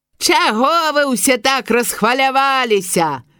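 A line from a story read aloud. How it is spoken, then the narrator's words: Loud shout from above. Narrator (Belarusian): гучна крыкнуў хтосьці, седзячы наверсе высокай елкі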